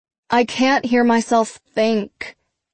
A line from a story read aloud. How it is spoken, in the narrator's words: Kate groans